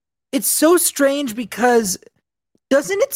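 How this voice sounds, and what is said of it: Usual voice. Nothing is said of it.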